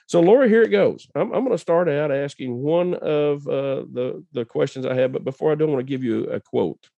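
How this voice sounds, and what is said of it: Rough, strained-sounding voice. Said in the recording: “apologize for my voice... we do have these things called allergies... what is going on with his voice... having a little bit of allergies”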